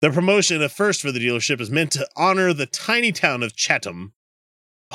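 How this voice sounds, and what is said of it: Usual voice. Nothing is said of it.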